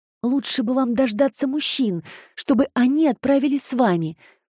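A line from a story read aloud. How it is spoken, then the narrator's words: Anxious remark. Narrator (Russian): взволнованно заметила Джема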